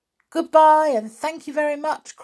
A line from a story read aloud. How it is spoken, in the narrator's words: cried Binky and the children